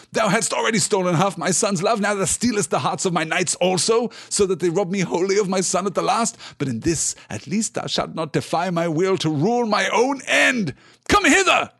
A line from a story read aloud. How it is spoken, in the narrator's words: he cried to his servants